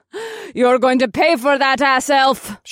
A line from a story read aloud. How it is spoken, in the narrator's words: She giggled like a madwoman